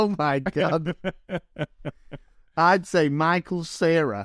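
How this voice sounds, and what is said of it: Usual voice. Nothing is said of it.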